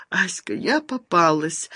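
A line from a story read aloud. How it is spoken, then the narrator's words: Sobbing. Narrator (Russian): сквозь рыдание ответила Люда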